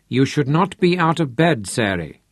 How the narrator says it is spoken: Aunt Trudy told her sternly

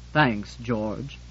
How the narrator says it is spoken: said Septimus gloomily

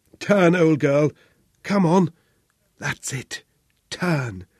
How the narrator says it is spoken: Charles croaked through the blood

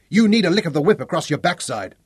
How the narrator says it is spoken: the driver of the bogged-down vehicle yelled back

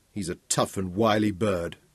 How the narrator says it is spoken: Daniel muttered

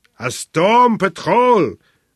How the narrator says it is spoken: bellowed the commissioner, blowing a cloud of spittle in his agitation

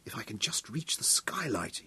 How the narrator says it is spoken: he whispered

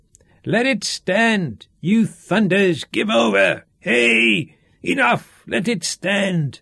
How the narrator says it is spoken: Sean shouted with pain as the lash cut across his back

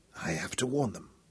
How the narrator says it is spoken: she whispered aloud

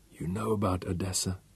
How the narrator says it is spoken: she whispered

